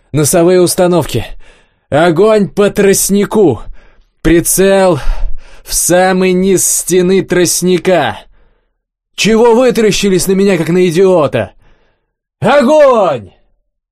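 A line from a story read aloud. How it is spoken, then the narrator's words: Yelled. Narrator (Russian): заорал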